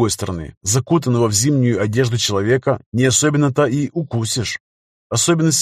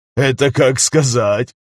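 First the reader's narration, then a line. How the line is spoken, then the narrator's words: Chuckling. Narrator (Russian): хохотнул Стас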